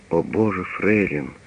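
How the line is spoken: Suddenly sad. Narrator (Russian): говорит он вдруг печально

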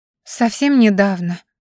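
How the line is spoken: Sad sigh, beggar's wail. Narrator (Russian): печально вздохнула и заголосила в лучших традициях попрошаек на рынке

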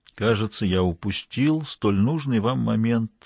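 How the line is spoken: Sad remark. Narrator (Russian): грустно заметил Мангу

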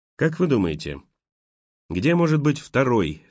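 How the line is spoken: Plain question. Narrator (Russian): спросил Хью

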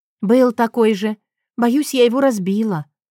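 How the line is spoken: Sighing. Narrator (Russian): вздохнула она

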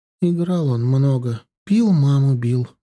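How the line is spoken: Muffled, hollow voice. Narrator (Russian): заговорила она глуховатым голосом

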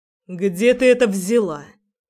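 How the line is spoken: Cold question. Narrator (Russian): холодно спрашивает он

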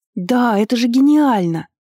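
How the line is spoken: Excited exclamation. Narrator (Russian): воскликнула она

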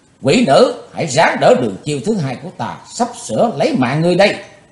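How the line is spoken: Deep heavy shout. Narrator (Vietnamese): giọng nặng trầm quát bảo ma nữ Mộc Liên Anh

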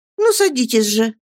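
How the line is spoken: Cheerful. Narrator (Russian): весело проговорила Агнесса

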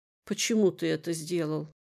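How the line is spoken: Weak, strained whisper. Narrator (Russian): С трудом найдя в себе силы говорить, прошептала

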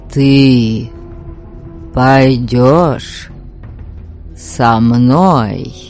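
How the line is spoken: Slow, pausing after each word. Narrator (Russian): Медленно повторил он, делая паузу после каждого слова

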